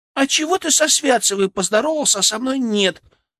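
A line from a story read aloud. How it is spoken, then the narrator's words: Indignant girlish squeak. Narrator (Russian): пискнула вторая девчуля возмущенно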